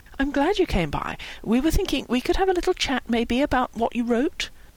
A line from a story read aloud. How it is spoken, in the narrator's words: Howie said gently